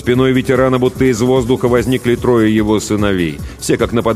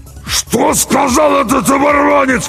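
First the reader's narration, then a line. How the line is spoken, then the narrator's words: Hoarse wheeze. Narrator (Russian): прихрипел Джерей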